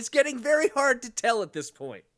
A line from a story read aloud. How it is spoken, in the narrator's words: actually laughed as he said